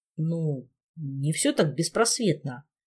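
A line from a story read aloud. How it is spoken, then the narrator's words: Uncertain. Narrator (Russian): неуверенно сообщил он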